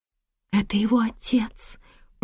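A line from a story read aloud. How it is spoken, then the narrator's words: Whisper. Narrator (Russian): прошептала Джейн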